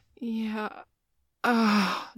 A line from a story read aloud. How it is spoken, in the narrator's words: Joey groaned